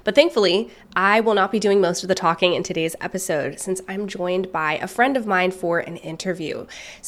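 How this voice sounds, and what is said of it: Congested, stuffy-nosed voice. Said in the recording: “I'm just a little bit congested here, as you might hear in my voice. ... got hit with just a nasty cold, and so it's taking my voice a little bit of time to come back to normal.”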